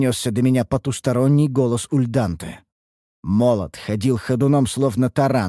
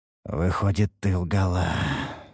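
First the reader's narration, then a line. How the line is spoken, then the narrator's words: Pained breathy exhale. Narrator (Russian): выдохнул я, морщась от боли в многочисленных ранах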